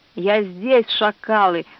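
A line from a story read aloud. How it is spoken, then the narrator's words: Growling. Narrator (Russian): зарычал кемериец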